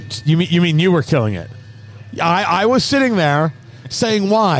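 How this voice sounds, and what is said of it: Usual voice. Nothing is said of it.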